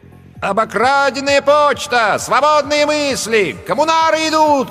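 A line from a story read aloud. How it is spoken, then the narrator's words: Shouting. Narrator (Russian): кричал он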